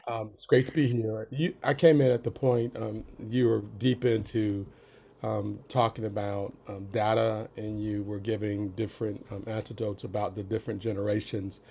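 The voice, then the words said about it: Raspy, slightly sick voice. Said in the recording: “I'm a little bit under the weather, so that's why my voice is kind of raspy.”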